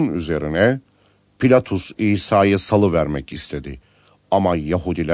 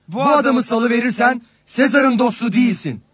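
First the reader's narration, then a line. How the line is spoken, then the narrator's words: Crowd shouting. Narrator (Turkish): diye bağırıştılar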